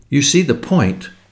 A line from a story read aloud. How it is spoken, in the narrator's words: she cried delightedly